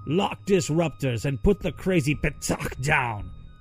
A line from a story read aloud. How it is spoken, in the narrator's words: Karak yelled, spittle flying